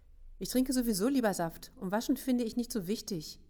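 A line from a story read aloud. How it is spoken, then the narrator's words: Interrupting call. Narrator (German): rief Max dazwischen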